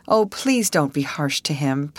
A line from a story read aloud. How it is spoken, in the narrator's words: pleaded Alice